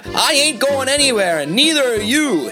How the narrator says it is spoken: Jeremiah yelled out

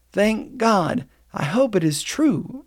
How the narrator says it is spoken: exclaimed Maxwell

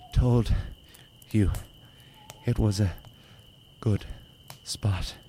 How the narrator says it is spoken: gasped Conn before passing out with exhaustion

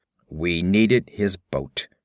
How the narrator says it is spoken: grunted Conan, not pausing in his exertions

